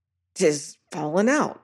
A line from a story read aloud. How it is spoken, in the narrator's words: says Tressidy in a strangled voice